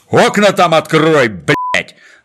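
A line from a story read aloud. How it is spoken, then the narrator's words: Barked. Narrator (Russian): рявкнул старшина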